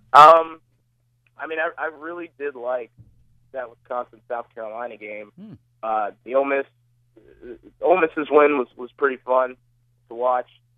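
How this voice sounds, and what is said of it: Hoarse, froggy throat. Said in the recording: “excuse me. I have a frog in my throat that I've had for about a week now.”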